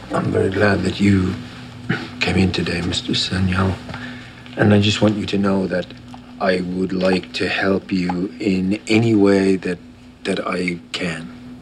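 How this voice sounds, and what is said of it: Irish accent. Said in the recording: “I had an Irish friend in the university. I recognized the accent.”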